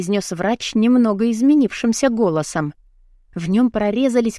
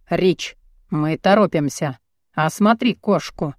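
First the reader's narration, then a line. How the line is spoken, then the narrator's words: Grim demand. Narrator (Russian): потребовал мрачно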